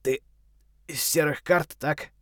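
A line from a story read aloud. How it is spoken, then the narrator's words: Weak voice question. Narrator (Russian): слабым голосом спросил он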